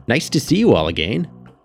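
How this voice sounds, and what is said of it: Chipper, cheerful voice. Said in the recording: “said Mr. Wainwright in a chipper voice.”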